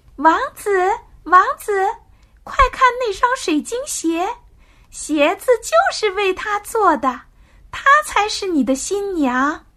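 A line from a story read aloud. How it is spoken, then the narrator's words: Loud bird calling. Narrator (Chinese): 小鸟大声的喊道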